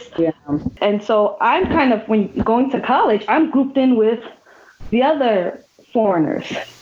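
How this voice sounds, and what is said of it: Mixed, not clearly American accent. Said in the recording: “my living in another country for six years has changed my accent. ... It is not American. It's not necessarily Ghanaian, nor has it been English.”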